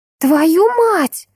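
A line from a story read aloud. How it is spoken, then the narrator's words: Cry out. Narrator (Russian): вскрикнула подруга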